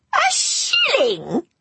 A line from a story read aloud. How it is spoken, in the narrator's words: she spat